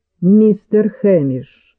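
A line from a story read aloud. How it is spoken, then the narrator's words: Cold question. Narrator (Russian): холодно спросил Дональд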